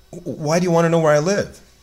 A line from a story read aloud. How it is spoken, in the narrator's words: eagerly asking